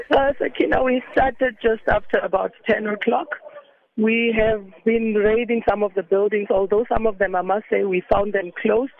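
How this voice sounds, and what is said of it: Voice affected by a flu. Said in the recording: “pardon my voice with a flu”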